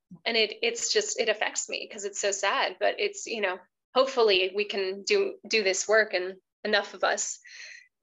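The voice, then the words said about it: Emotional, choked-up voice. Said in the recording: “I'm just choking up a little bit ... I'm feeling a little emotional today ... I just feel tender”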